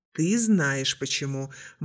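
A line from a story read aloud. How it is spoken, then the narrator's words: Gloomy reply. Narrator (Russian): мрачно ответил кадет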